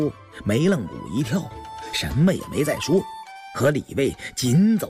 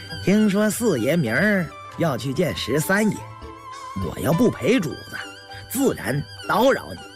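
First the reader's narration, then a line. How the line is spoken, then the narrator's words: Laughing. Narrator (Chinese): 李卫笑了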